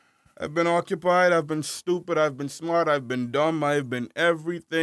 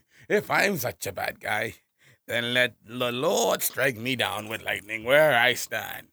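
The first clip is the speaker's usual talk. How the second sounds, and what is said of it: Imitates a cartoon villain's voice. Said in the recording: “I was mimicking Frieza from Dragon Ball Z Abridged”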